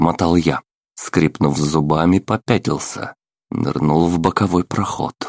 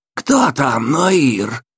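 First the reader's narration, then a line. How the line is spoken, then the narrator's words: Distant, harsh, hoarse voice. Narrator (Russian): Голос прилетел словно издалека, резкий, хриплый, неприятный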